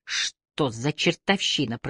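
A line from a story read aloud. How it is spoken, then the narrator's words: Through gritted teeth. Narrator (Russian): процедила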